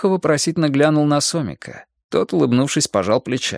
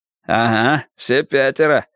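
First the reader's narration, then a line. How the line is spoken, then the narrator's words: Smirking grunt. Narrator (Russian): хмыкнул Игорь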